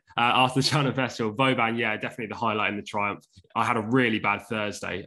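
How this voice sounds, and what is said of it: Slightly hoarse voice. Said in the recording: “as you can tell, my voice is a little bit hoarse.”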